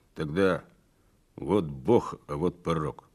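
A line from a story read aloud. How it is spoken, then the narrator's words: Forced-out words. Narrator (Russian): Не поднимая глаз, выдавил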